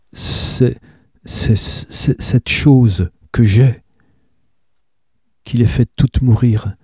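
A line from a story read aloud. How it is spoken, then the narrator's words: Stammering. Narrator (French): balbutia-t'elle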